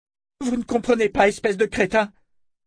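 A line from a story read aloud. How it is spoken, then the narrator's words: Woman shouting. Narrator (French): cria la femme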